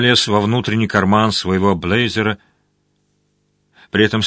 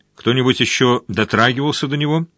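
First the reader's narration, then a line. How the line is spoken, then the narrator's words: Plain. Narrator (Russian): спросил он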